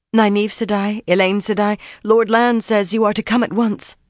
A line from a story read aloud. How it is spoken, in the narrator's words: she said breathlessly